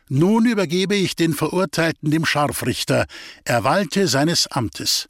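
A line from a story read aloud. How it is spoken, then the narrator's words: Prosecutor speaking loudly. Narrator (German): sagt laut der Staatsanwalt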